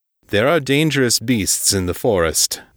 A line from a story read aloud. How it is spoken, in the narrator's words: the attendant said